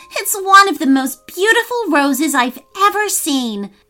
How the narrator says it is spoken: cried Maya with delight

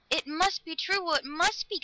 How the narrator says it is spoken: Galatea cried

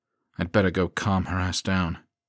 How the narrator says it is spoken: he said with a sigh

